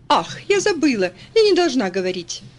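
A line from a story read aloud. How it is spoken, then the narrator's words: Laughing. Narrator (Russian): Кэрри рассмеялась, добавив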